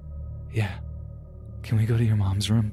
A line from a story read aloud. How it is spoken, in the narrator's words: My cousin whispered